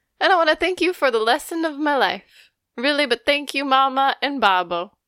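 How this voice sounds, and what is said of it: Fairly good Italian accent, Roberto Benigni. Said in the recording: “your Italian accent's kind of good... It also kind of sounds like Pistachio and Master of Disguise. But also like Roberto Benigni.”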